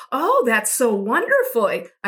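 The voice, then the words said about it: Sing-song baby-talk voice. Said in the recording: “do the baby voice”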